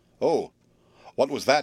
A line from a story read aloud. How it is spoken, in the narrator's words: asked Will, in a trembling voice